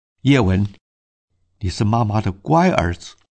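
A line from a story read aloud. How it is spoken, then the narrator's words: Crying while speaking. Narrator (Chinese): 谢师母边哭边说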